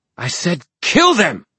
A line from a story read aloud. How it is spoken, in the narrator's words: Manuel shouted